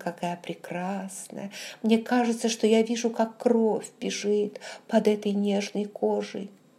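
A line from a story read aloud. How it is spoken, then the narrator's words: Mutter. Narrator (Russian): бормотал он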